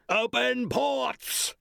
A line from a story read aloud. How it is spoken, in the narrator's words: the master's roar